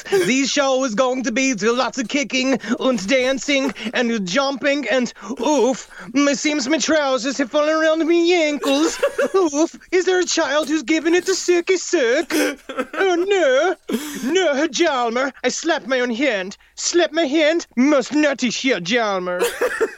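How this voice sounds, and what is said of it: Put-on Swedish accent. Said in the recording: “if Charles Ng was born a Swedish man ... I don't know how to do a Swedish accent”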